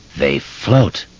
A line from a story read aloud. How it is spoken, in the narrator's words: the thing in the drain crooned in a clotted, chuckling voice